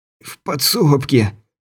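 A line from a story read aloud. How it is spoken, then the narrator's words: Hoarse wheeze. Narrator (Russian): прохрипел Стюарт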